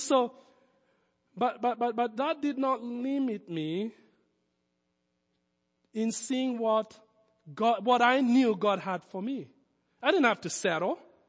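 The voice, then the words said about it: Foreign Kenyan accent. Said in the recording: “my foreign accent ... you don't have an accent. No, I do. I was born in Nairobi.”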